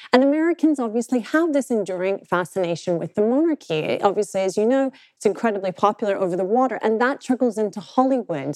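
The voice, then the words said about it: British accent. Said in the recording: “I am both a British and an American passport holder, but you can tell by my accent where I've come from”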